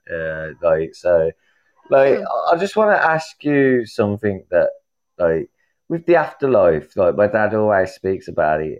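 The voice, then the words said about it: Birmingham English accent. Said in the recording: “Birmingham kind of area, are you? ... I know the accent.”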